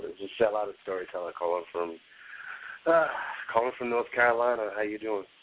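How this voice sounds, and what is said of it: Rough, strained voice. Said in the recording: “my voice is a little whacked right now”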